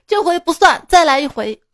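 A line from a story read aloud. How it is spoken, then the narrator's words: Laughing then shouting. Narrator (Chinese): 俩人哈哈大笑之后喊着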